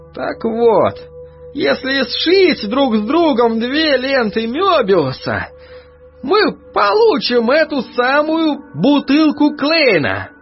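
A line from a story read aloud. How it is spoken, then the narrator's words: Archivist breathing out. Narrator (Russian): выдохнул архивариус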